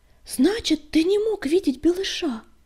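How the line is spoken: Exclaiming sandstorm. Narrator (Russian): воскликнула песчаная буря

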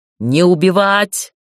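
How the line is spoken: Barking shout. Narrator (Russian): рявкнул Дейтар

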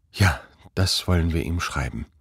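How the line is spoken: Murmuring. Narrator (German): murmelte Quangel

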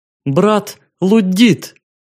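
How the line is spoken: Joyful exclamation. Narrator (Russian): Ритаил при виде черного радостно воскликнув

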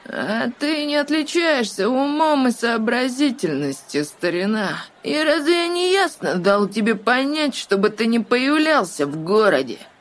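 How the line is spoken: Nasty, unpleasant voice. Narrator (Russian): Противным голосом поинтересовался Гэт

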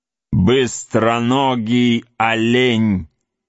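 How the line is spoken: Loud, gloating. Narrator (Russian): злорадство, громко произнес

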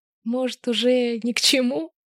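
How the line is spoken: Laughing girl. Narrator (Russian): хохотнула девушка

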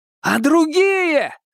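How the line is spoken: Desperate shout. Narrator (Russian): с отчаянием крикнул

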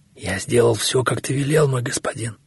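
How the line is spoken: Barely audible. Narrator (Russian): чуть слышно проговорил он

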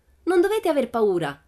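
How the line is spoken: Shouted. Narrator (Italian): gridò loro Pippi

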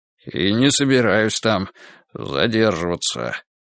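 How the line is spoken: Gray-haired man muttering. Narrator (Russian): пробормотал седоволосый

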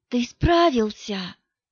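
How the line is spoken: Whispered. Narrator (Russian): шепнула она

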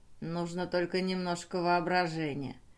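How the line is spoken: King muttering. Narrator (Russian): пробормотал король

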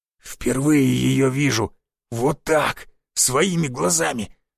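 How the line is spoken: Dry rasping wheeze. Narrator (Russian): захрипел он так, будто в горле его пересохло

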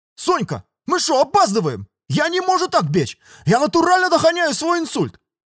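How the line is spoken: Boy yelling while running. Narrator (Russian): Орал пацан, ускоряясь все сильнее

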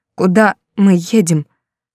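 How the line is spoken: Trembling voice. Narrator (Russian): спросила дрожащим голосом

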